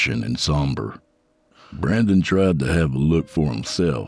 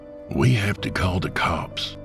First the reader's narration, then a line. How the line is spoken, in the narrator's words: Jacob whispered